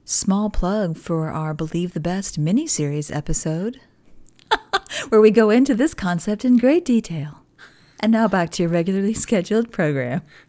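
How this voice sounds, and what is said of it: Announcer-style podcast voice. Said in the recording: “Thanks for putting the podcast voice on.”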